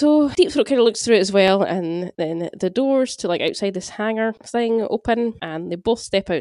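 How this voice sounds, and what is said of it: Usual voice. Nothing is said of it.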